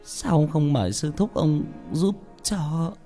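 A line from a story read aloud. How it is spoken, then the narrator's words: Trembling. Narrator (Vietnamese): Bà run rẩy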